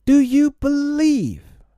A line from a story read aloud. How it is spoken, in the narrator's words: he cried